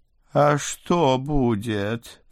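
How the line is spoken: Moaning. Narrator (Russian): простонал толстый вампир

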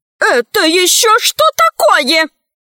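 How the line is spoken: Yelling. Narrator (Russian): завопила милая Мила

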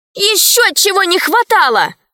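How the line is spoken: Shouted. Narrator (Russian): закричала Алиса

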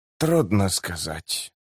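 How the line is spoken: Muttering. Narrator (Russian): пробормотал Котильон

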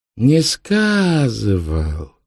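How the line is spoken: Drawn-out drawl. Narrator (Russian): протянул Ванька

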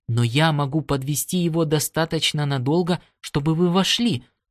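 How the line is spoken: Clear childlike voice, crazed. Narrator (Russian): заявил помешанный пилот своим чистым детским голосом

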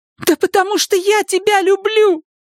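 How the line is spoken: Shouted. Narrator (Russian): закричала Элис

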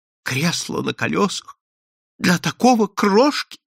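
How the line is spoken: Sob. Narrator (Russian): всхлипнула она

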